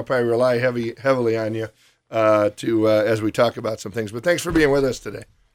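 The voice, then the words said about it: Weak, nearly lost voice. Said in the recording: “My voice is just about gone”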